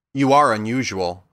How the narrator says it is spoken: replied Glinda

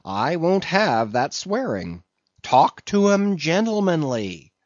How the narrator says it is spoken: cried Stubb

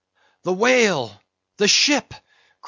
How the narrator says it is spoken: cried the cringing oarsman

